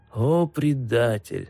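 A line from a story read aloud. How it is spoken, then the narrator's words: Plain. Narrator (Russian): сказал он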